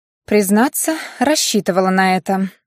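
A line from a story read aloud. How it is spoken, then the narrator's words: Sigh. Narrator (Russian): вздохнула Аня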